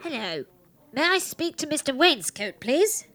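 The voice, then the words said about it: Disguised put-on voice. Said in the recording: “Why is she putting on that voice?”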